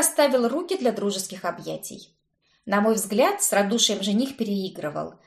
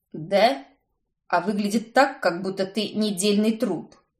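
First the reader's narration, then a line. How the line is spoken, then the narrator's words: Grumbling. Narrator (Russian): Проворчал Уильям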